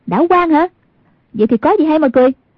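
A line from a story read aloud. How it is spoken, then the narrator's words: Angry shout. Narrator (Vietnamese): Hoàng Dung trong lòng hơi tức giận, quát lên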